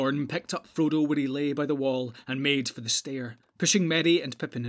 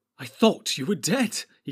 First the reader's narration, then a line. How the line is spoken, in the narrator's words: he cried